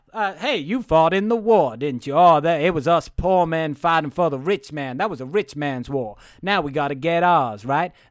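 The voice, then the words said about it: Put-on Southern US accent. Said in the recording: “Where's my Southern accent? I'm from the South.”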